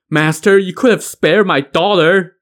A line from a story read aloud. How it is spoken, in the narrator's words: the old squire wailed